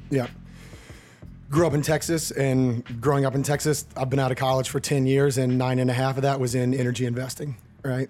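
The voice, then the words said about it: Hoarse voice. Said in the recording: “I'm a little under the weather right now. Sorry for the hoarse voice”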